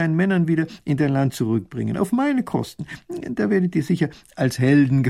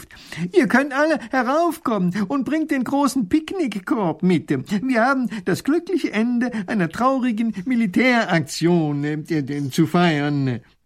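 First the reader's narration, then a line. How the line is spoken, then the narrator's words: Calling out. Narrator (German): Professor Pfiffikus ruft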